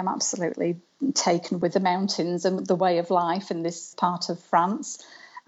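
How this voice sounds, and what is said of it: Sheffield English accent. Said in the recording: “from the accent that you are not originally from the Pyrenees ... I'm originally from Sheffield in the UK”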